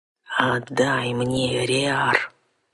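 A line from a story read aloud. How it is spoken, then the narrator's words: Rude man growling. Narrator (Russian): куда менее любезно прорычал мужик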